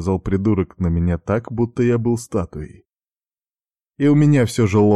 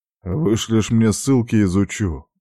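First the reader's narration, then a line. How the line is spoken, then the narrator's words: Irritated, through teeth. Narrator (Russian): раздраженно процедил я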